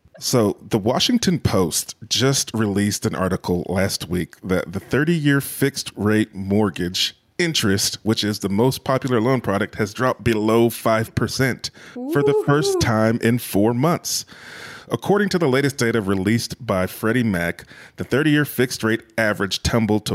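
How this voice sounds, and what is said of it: Imitates another person's voice. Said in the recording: “I'm going to channel my inner Dave Meyer ... in my Dave Meyer voice”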